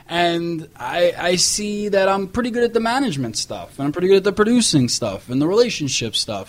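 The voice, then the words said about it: New York accent. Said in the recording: “I'm a New Yorker. I got the accents”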